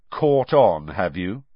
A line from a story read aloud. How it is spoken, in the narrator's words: said Harry coldly